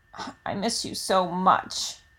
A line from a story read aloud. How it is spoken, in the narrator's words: croaks out